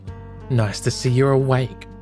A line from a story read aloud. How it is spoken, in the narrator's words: she snapped